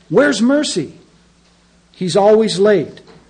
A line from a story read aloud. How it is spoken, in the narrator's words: shouted